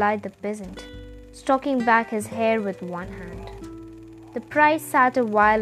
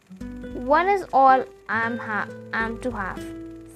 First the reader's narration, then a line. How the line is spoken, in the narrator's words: said the priest